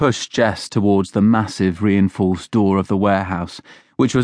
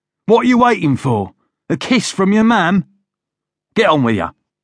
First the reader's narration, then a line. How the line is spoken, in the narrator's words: his father said sharply